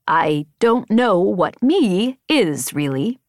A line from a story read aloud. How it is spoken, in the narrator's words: Embot said slowly, as if each word took a great effort to force out